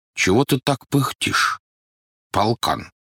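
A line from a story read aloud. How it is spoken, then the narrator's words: Plain. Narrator (Russian): спросил осел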